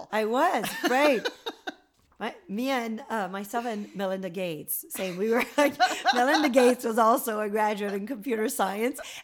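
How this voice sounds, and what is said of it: French Canadian accent. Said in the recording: “You're French Canadian, right? ... You have this wonderful accent that I love.”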